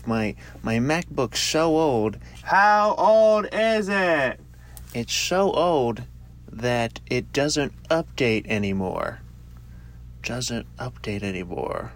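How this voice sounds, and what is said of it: Weak Johnny Carson impersonation. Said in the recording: “that's a Johnny Carson impersonation. Not great”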